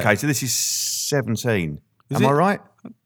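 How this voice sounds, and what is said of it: Flat, low-energy delivery. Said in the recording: “your voice is very flat. ... you need to put a little bit of oomph in it.”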